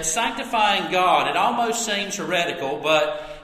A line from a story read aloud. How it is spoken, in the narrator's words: he said